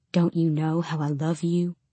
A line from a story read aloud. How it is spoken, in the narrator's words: I would start to whisper